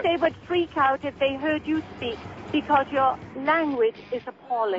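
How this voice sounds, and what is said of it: British accent. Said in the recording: “what's with the accent? ... The accent is British.”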